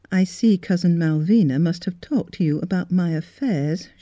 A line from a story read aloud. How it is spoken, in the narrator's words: she said stiffly